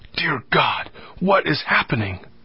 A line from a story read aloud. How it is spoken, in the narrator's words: whispered